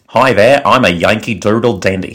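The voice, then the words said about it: Put-on Midwestern American accent. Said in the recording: “we will each say it in an American accent ... a quintessential, you know, Midwestern accent ... somebody from Joliet, Illinois didn't just walk in their recording studio. That was me.”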